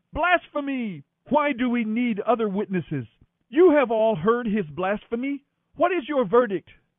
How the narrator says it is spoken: Then the high priest tore his clothing to show his horror, shouting

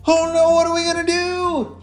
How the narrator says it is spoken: Alistair shouted

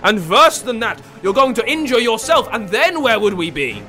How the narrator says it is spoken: he bellowed

